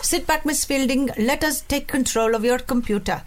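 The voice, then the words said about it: Put-on Indian accent. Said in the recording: “I'm so sorry about the accent ... that was really good, actually. ... Very good.”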